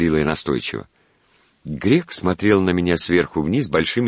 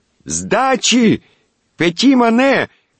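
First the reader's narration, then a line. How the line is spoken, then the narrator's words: Full-lung shout. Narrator (Russian): крикнула я во всю силу легких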